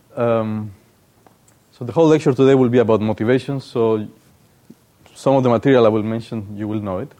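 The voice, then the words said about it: Speaks English with a noticeable accent. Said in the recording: “just use the lecture as to get used to my accent.”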